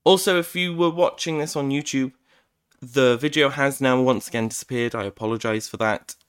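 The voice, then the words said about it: Rough, uneven voice from coughing. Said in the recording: “my cough has been quite bad today, so my voice is potentially a bit all over the place”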